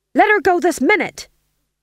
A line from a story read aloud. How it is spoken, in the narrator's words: he shouted